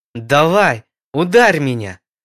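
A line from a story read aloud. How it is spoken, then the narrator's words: Frustrated shout. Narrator (Russian): закричал Ксандр, расстроенный тем, что ни одна из его атак не сработала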